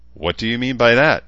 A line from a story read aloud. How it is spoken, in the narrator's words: Chansa asked harshly